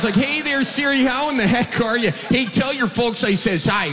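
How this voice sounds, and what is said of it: Strong Wisconsin Midwestern accent. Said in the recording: “We've got kind of an accent here in the Midwest ... I had no clue I had a Wisconsin accent”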